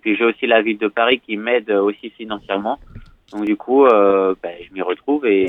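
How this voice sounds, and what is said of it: Slight southern French accent. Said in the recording (French): “vous avez un petit accent du Sud, j'ai l'impression”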